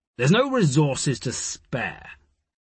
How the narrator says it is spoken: Ward growled back

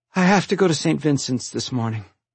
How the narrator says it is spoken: sighed

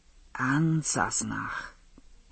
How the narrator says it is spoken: he whispered

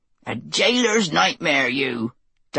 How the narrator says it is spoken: would cackle over his tea

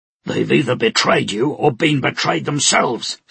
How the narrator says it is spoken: Stike roared

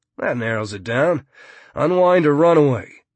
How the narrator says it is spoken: Mumbles Starkey

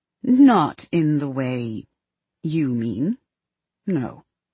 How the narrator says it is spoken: Evelyn thinks and then answers slowly

